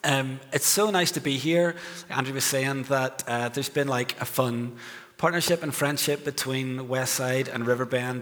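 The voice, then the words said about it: Strong noticeable accent. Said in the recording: “my crazy accent”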